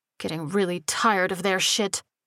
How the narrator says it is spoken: Sparks growled

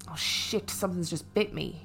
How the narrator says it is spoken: he moaned

